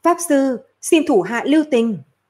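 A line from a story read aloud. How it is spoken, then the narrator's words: Frightened woman crying out. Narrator (Vietnamese): một giọng nữ hoảng sợ kêu lên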